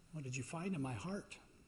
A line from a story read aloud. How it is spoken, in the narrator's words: the boy opened his eyes, and he asked very quietly